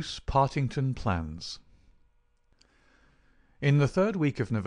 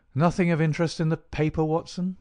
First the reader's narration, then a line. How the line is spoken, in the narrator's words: said